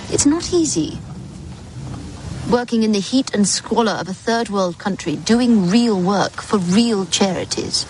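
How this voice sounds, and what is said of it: Posh cut-glass upper-class English accent. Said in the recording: “posh cut-glass accents ... You know that accent when you see it, or when you hear it ... Erin Doherty playing Princess Anne”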